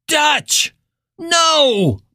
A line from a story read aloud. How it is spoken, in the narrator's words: Billy screamed